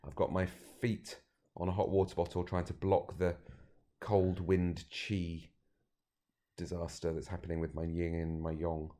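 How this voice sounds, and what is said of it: Voice sounding ill and congested. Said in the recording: “You might be worried about me, but I've got a cold.”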